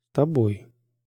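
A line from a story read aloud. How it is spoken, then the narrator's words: Barely audible. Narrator (Russian): она произнесла едва слышно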